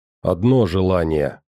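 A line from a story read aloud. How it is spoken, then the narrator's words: Old man's grumble. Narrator (Russian): проворчал дед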